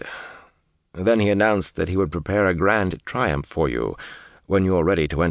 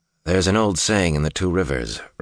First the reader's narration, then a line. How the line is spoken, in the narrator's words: Rand said dryly